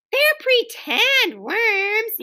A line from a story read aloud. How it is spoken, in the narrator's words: yelled Ramona